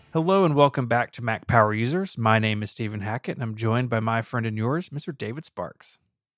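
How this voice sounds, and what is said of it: Soft, intimate bedroom voice. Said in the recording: “you've got a bedroom voice today”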